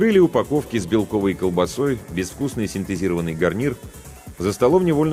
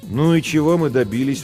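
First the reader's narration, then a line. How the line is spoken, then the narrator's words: Tired question. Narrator (Russian): устало спросила Жен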